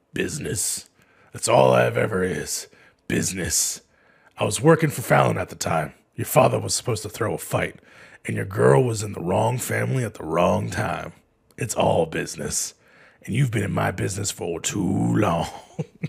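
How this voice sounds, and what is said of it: Imitates another person's voice. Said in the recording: “my Michael Clark Duncan impression”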